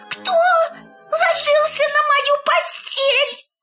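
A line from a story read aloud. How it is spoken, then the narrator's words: Terrified shriek. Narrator (Russian): он завизжал так, как будто его режут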